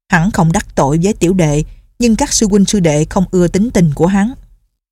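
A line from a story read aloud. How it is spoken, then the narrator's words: Resentful, sullen. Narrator (Vietnamese): Lục Đại Hữu hậm hực nói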